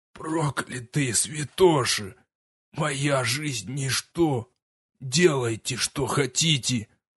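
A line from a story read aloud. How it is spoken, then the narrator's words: Hoarse, wounded rasp. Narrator (Russian): лорд Ван Ферсис прохрипел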